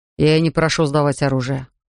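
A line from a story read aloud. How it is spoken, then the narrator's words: Weary objection. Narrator (Russian): устало возразил Питт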